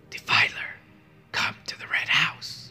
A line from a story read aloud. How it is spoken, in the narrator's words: It whispered